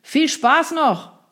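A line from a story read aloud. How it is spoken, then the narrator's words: Call out. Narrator (German): rief der noch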